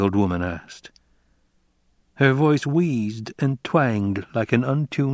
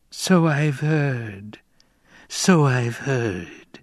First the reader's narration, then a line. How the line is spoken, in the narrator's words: wheezed the old woman